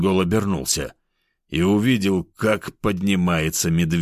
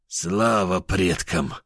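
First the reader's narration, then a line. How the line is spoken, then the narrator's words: Relieved exhale. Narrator (Russian): хан облегченно выдохнул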